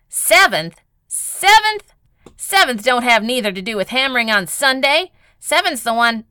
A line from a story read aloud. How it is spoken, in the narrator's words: Call, who snorted and almost yelled